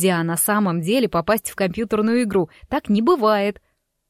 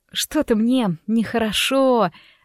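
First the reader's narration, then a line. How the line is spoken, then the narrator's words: Confused mutter. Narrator (Russian): растерянно пробормотала я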